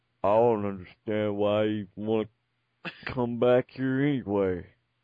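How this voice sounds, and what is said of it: Drunken, slurred imitation of another person. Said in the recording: “very inebriated Scott Hall ... your Scott Hall impression”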